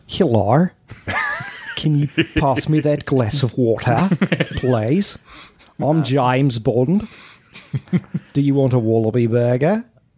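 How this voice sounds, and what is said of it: Over-the-top put-on Australian accent. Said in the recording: “My Australian accent is so over the top that it would have never been believable.”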